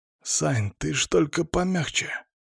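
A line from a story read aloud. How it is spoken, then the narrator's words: Whisper in the ear. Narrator (Russian): зашептал на ухо мой напарник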